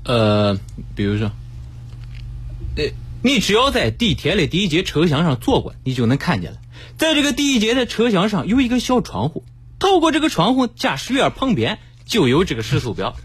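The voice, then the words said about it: Put-on Henan accent, lively. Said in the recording (Chinese): “台词就是就是河河南口音嘛 ... 河南口音怎么说？ ... 他的这个声音比他本人看起来要活络的多”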